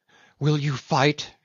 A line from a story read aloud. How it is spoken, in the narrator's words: she cried